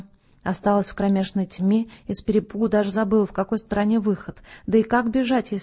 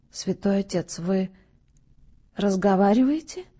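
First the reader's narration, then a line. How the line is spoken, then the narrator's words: Timid babble. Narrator (Russian): пролепетала она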